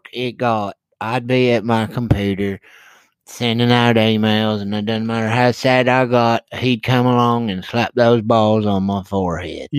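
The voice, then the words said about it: Weird old lady voice. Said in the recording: “You sound like the voice at the beginning of the Guns N' Roses song, Civil War... You sound exactly like that. That weird old lady. You sound like a weird old lady.”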